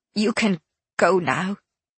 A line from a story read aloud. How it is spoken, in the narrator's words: she said, tightly